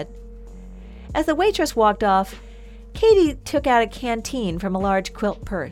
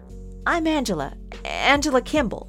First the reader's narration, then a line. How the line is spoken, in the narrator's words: Katie stuttered